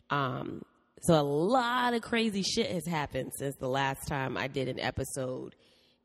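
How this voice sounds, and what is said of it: Sick-sounding voice. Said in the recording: “If you can't tell by my voice, I am sick”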